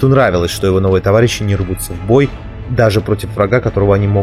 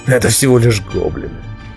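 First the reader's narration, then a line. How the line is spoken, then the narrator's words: Gloomy mutter. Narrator (Russian): мрачно пробормотал он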